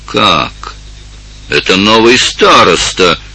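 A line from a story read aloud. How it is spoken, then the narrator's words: Exclamation. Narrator (Russian): воскликнул Эндема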